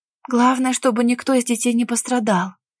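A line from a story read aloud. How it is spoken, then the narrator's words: Young woman's anxious whisper. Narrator (Russian): встревоженно прошептала девушка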